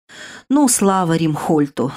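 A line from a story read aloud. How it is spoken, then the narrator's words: Relieved exhale. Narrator (Russian): с облегчением выдохнула сестра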